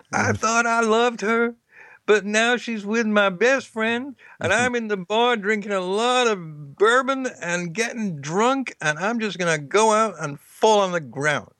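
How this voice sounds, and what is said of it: Poor impression of country singer. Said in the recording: “most of them in country songs ... I know that's not a good impersonation”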